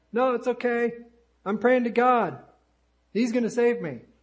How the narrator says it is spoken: The stranded fellow shouted back

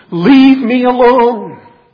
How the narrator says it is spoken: he pleads in the strongest possible language

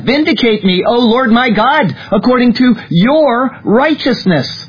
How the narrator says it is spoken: David cried out

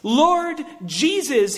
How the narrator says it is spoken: he says

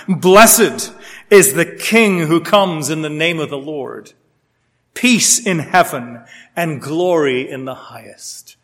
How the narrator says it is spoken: they shouted

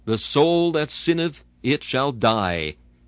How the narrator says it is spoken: It thunders out without the slightest mitigation

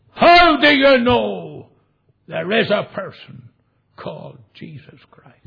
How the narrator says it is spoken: she said, in a very loud voice, she said

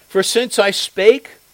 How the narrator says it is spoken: I cried out

